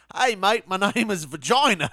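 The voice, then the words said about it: Put-on Australian accent. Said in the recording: “I did an Australian accent”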